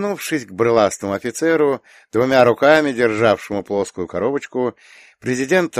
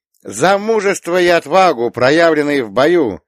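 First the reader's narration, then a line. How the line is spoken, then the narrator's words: Loud. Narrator (Russian): громко заговорила она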